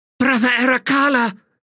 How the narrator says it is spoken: she cried

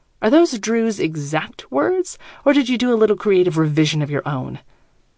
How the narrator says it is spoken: Mia snarls again, actually snarls

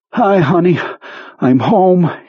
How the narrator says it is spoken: panted

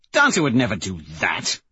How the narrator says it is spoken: Severo says with a sneer

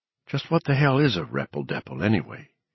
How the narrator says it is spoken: he muttered

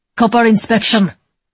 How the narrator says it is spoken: both brutal and officious, so was the officer's tone as he snapped

